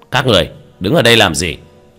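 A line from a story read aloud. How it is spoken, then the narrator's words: Stern shout. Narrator (Vietnamese): một lãnh đạo nghiêm nghị quát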